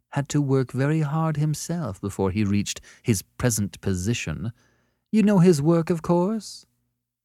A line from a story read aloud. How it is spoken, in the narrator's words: she said smoothly